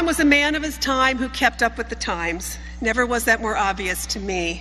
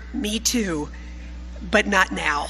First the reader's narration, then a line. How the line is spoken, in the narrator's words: he whispered